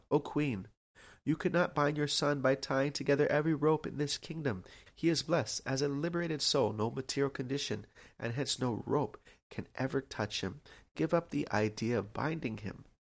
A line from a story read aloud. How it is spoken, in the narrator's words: The gopis called out